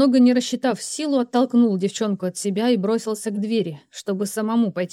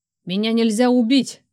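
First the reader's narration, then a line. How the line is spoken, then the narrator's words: Barked. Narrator (Russian): рявкнул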